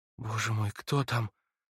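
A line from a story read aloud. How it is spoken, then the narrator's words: Barely audible voice. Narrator (Russian): проговорила она чуть слышным голосом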